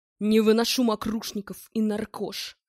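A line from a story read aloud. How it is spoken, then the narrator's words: Deep bass voice. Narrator (Russian): пробасил он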